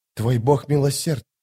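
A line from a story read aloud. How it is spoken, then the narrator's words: Whispered. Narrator (Russian): прошептала Скалла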